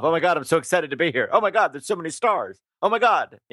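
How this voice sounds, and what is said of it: Good Jimmy Fallon impression. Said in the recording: “that's actually a very good impression of him.”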